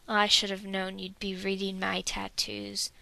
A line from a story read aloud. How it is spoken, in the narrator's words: Dwalin rumbles